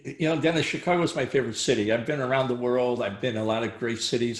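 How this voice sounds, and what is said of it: Chicago accent. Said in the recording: “you can even still hear it in your voice ... you still have that Chicago accent”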